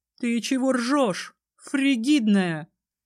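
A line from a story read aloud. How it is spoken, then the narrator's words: Barking, draconic growl. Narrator (Russian): рявкнула Ливия, и в ее голосе послышался драконий рык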